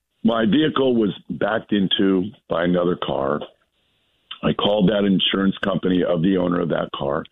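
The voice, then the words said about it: Hoarse, strained voice. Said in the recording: “I'm going to try to get this out with my terrible laryngitis.”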